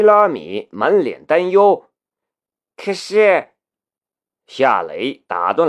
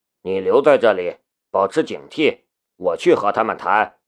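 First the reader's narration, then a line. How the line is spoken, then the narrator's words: Low whisper. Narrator (Chinese): 夏雷 在他耳边低声说道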